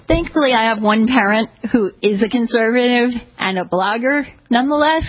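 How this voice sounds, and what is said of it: New York accent. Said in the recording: “you have a bit of a New York type of accent... I'm more than aware of my New York type of accent.”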